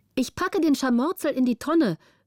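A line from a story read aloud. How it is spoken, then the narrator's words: Called out. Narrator (German): rief Petrina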